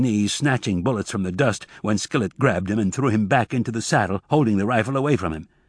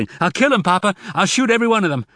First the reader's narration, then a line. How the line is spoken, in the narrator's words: Zek shouting